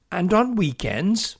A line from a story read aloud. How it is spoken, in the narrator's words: piped in Orff